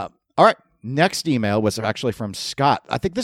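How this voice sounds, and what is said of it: Usual voice. Nothing is said of it.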